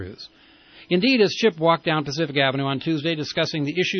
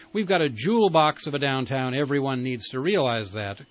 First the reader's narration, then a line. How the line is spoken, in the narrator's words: Correa said